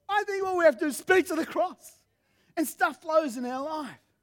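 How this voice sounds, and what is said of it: Hoarse, strained, nearly lost voice. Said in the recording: “I've almost lost my voice.”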